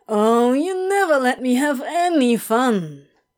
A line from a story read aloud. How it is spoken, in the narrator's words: whined Crowley